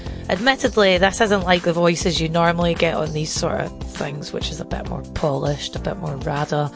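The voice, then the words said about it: Gravelly Scottish brogue. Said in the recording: “the reassuring, suitably Scottish brogue ... gravelly but well-meaning”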